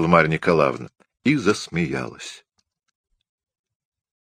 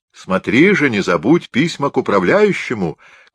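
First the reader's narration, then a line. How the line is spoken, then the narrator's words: Shouted from hallway. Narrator (Russian): крикнула ему Марья Николаевна из передней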